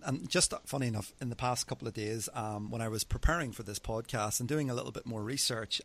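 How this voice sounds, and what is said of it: Irish accent. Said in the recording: “he's got a great accent because, you know, I'm here from the States, and I love his accent. You know, over in Ireland, I might go, what accent?”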